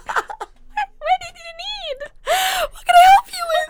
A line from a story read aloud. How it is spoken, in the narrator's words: My voice goes up 17 octaves, and I'm like